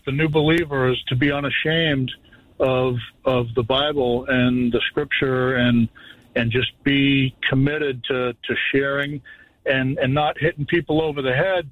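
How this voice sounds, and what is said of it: Boston accent. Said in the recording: “Naples via Long Island with that little bit of that accent ... It's Boston.”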